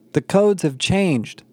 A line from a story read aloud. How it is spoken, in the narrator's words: the bearded man exclaimed